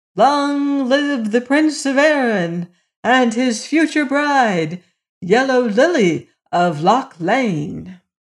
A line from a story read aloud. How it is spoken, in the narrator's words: the palace re-echoed from tower to dungeon with joyous shouts of